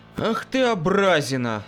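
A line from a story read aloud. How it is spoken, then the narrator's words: Sighing. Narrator (Russian): вздохнул я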